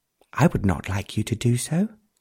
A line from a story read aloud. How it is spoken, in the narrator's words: answered Carol